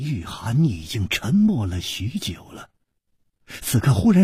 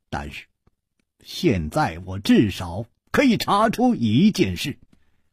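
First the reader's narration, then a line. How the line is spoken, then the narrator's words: Smiling. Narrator (Chinese): 楚留香微笑着说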